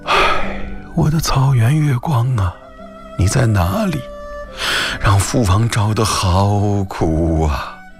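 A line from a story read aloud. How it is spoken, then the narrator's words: Sad sigh, muttering to self. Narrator (Chinese): 智乌带悲伤地长叹了一声，自言自语说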